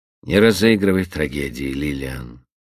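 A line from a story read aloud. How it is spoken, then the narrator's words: Indifferent tone. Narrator (Russian): безразличным тоном произнес он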